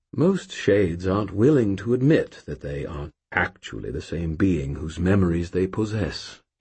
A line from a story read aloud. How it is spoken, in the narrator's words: he said gently